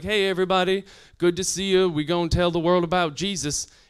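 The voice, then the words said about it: Slight put-on Southern accent. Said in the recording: “He had a little Southern accent.”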